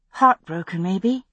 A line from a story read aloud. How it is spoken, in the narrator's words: I added softly